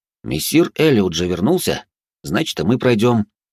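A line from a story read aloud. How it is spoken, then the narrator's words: Confident. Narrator (Russian): уверенным тоном проговорил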